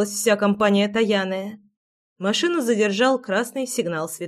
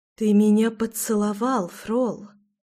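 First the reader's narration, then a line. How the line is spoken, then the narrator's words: Dawning realization whisper. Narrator (Russian): прошептала Таяна, словно только сейчас до нее дошел смысл минувшего события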